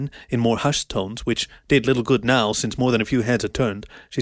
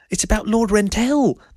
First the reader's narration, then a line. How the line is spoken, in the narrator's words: the wolf blurted